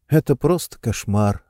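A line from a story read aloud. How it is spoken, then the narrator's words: Sighed. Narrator (Russian): вздохнула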